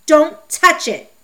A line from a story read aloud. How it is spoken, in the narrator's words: he shouted